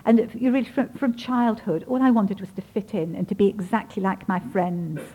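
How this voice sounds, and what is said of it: Very English accent. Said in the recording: “I sort of speak with a very English accent.”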